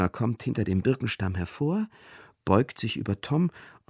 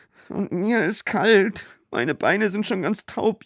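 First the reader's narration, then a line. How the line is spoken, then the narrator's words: Whining complaint. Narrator (German): jammert Nils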